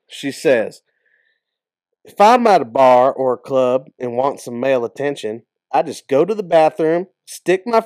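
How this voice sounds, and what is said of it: Put-on country accent. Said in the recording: “I'm going to say it in a little country accent ... it feels like it should be by like a 48-year-old woman from Arkansas”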